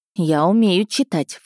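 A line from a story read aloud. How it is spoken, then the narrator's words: Snorting. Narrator (Russian): фыркнула я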